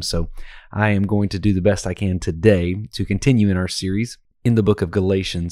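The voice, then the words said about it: Strained, failing voice. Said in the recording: “by the sound of my voice is failing me today ... have lost my voice a little bit”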